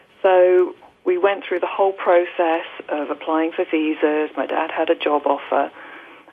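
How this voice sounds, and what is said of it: English accent. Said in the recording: “As you may guess from my accent, I'm originally from England.”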